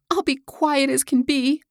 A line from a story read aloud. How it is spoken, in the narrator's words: rejoined Hilda, almost choking in her efforts to check her sobs